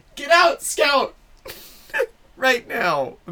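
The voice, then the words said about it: Shouting loudly. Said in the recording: “I'm sorry for shouting.”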